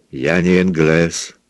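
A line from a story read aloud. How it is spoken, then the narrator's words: Lazy drawl. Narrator (Russian): сказал он лениво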